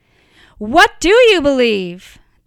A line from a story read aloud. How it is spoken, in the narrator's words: the enemy of your soul shouts